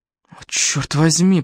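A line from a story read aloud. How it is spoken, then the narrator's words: Groaned. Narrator (Russian): простонал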